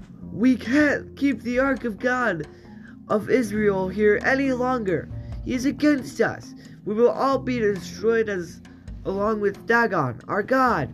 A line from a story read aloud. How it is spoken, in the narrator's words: When the people realized what was happening, they cried out